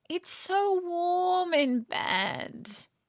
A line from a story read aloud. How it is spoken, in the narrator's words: Natalie would moan